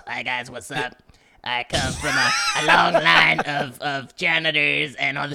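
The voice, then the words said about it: Imitates another person's voice. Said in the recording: “I do my Kermit Gonzalez voice.”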